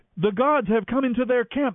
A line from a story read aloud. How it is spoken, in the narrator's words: they cried